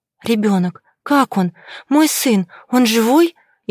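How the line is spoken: Frightened whisper. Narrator (Russian): Испуганно прошептала, чувствуя, как по телу разливается ледяной холод

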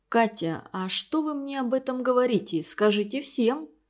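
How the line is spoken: Quiet. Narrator (Russian): тихо сказал он

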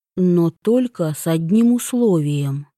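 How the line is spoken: Plain. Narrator (Russian): сказал Йон

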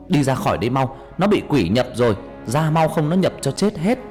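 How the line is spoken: Old man shouting loudly. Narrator (Vietnamese): ông thầy hét lớn

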